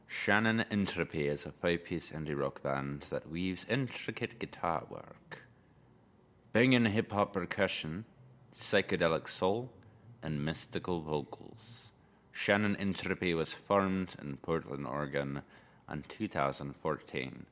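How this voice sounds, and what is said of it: Put-on Scottish accent. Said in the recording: “I kind of want to read it like in a Scottish accent.”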